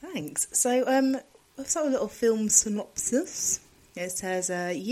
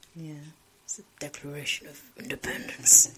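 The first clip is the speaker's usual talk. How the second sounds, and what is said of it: Impression of Nicolas Cage. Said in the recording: “That's my impression of him.”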